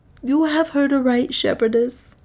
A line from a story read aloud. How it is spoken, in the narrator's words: man answered sadly